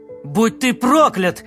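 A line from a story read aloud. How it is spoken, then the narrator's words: Shouting. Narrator (Russian): закричал он в стену кормы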